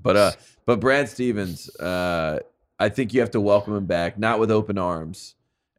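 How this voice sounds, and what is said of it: Strained, hoarse voice. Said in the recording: “I'm losing my voice because of this Milwaukee wedding”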